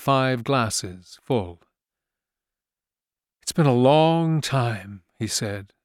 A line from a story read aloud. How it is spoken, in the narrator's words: he said, gravely